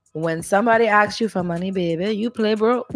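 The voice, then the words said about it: Put-on accent. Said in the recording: “This accent is really.”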